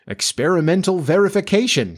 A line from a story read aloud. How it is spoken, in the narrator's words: cried